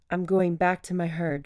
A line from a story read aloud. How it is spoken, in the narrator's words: Yin said with a small sigh